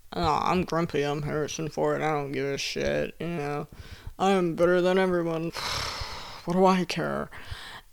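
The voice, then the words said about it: Dry, grumpy imitation of another person. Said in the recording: “dry, curmudgeonly guy ... my Harrison Ford impression”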